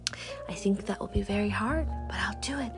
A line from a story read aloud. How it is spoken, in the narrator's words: Astrid whispered